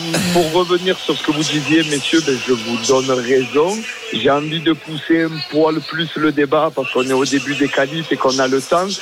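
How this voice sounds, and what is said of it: Slight Marseille accent. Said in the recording (French): “Il y a un petit accent marseillais.”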